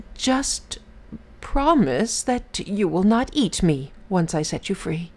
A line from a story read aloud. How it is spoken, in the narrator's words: The Brahmin timidly replied